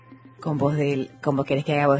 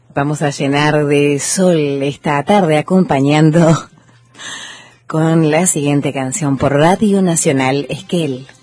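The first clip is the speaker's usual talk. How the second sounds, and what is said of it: Female radio announcer voice. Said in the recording (Spanish): “con voz así... voz de locutora”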